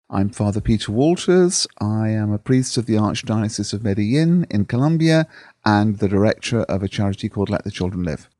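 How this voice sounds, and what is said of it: Noticeable accent. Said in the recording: “The accent gives it away.”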